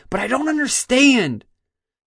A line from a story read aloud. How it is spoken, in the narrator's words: He blurted out